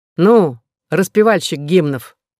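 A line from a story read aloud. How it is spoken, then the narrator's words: Rude, coarse. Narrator (Russian): грубо сказал один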